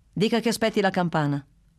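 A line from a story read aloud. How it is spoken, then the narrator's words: Curt reply. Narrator (Italian): rispose Bruno, così seccamente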